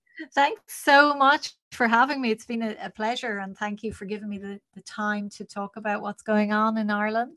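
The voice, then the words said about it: Charming Irish accent. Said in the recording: “a nice, charming Irish accent”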